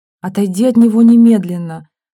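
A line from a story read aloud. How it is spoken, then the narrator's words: Through gritted teeth. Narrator (Russian): сквозь зубы сказала Стенина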